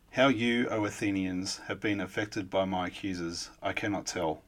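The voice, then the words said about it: Australian accent. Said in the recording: “I don't have any accent at all, being an Australian”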